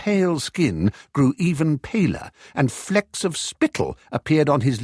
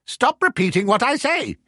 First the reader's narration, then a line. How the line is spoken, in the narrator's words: snapped